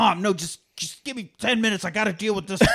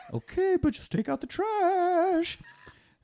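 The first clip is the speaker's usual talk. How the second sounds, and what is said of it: Sing-songy mom voice. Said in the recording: “That's the universal mom voice. ... She's just sing-songy.”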